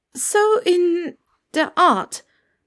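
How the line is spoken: Stammering. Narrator (German): stammelte Hermine

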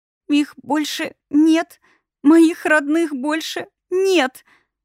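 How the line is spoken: Thin girl's voice, sobbing. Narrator (Russian): тоненький девичий голосок, прерываемый надрывными, режущими по самому сердцу всхлипами

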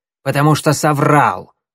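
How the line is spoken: Rude reply. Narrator (Russian): грубо ответила Щербатая

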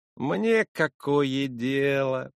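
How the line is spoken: Lazy stretching grumble. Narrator (Russian): проворчал, потягиваясь, лежащий цыган

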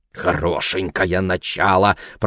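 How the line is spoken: Grumble. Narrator (Russian): проворчал Ларри

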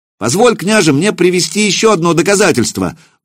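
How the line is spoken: Shouting out. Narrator (Russian): выкрикнул Илья

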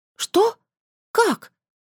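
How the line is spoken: Exclaiming. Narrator (Russian): воскликнула я

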